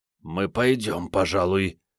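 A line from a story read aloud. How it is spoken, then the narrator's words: Strained, forced out. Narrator (Russian): выдавил Андрей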